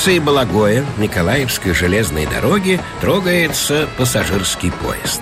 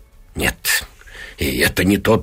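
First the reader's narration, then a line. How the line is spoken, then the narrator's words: Muttering. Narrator (Russian): бормочет она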